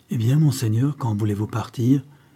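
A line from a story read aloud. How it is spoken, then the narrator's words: Resolute. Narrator (French): dit Pedro Diaz d'un ton résolu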